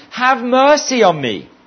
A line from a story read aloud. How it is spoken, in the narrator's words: screaming wildly